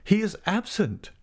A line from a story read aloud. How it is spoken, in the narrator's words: she cried in much excitement